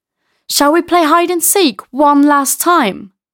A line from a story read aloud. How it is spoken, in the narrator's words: Eddie suggests excitedly